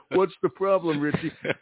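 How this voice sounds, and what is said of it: Heavy Italian accent, Richard Castellano impression. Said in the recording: “Richard Castellano ... in a real heavy Italian accent”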